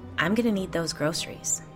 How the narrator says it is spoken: the woman said quietly

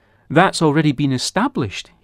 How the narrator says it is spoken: he replied

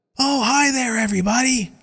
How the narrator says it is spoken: Kit yells

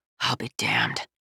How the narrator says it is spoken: he muttered

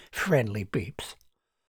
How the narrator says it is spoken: Charles shook his head and muttered

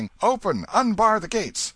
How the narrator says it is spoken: shouting

